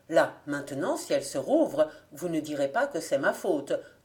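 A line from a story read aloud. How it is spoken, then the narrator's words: Growled. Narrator (French): grogna-t-il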